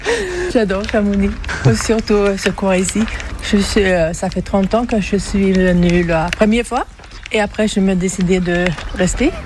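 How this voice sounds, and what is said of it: Swedish accent speaking French. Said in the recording (French): “d'où vous vient cet accent ? ... Suédoise.”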